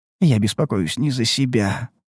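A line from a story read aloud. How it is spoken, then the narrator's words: Muttering. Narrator (Russian): пробормотал он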